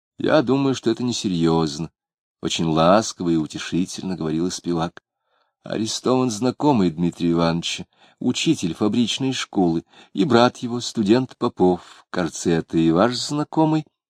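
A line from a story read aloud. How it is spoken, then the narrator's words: Plain question. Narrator (Russian): спросила она Клима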